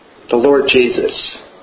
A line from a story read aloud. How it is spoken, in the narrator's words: answered the peasant